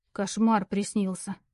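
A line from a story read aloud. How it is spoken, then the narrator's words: Sullen mutter. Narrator (Russian): хмуро пробурчала Лара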